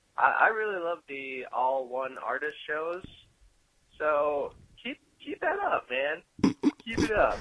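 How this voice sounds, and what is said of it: Laid-back hippie-sounding voice. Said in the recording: “why I sounded like a hippie”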